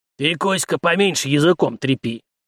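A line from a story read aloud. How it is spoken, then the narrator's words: Old sailor's good-natured snap. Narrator (Russian): Беззлобно огрызнулся старый абордажник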